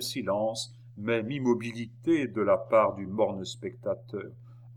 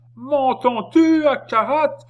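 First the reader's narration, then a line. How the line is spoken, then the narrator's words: Old man's raging bellow. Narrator (French): vociféra le vieillard en déchirant son gosier pour faire passage à cette dernière irruption de sa colère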